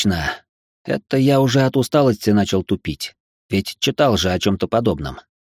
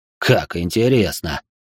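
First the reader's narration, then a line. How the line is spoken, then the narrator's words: Snorted. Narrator (Russian): хмыкнул Джеймс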